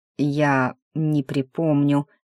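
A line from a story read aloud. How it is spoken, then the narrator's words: Slow speech. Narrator (Russian): произнес он медленно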